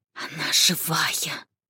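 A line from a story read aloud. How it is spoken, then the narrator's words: Scientist's faint whisper. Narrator (Russian): прошептал ученый, едва слышно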